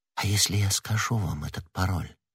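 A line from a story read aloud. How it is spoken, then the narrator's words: Whisper. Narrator (Russian): прошептала она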